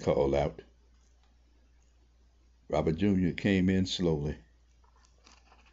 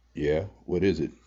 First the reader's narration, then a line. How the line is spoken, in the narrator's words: Slick asked